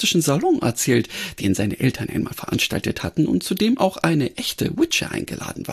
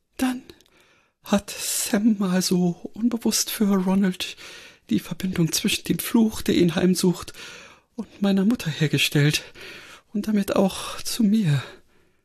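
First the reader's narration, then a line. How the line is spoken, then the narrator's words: Thin, weak voice. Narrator (German): Granny antwortete mit dünner Stimme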